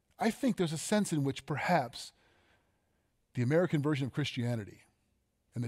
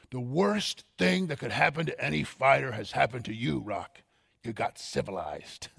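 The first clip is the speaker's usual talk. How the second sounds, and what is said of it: Imitates Rocky's trainer Mickey. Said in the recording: “my best Mickey impersonation.”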